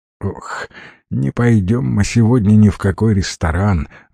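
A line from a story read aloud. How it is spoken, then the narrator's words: Sighed. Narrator (Russian): вздохнул Стивен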